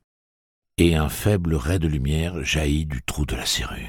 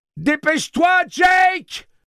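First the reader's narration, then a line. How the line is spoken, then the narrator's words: Yelling through keyhole. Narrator (French): hurla-t-il dans le trou de serrure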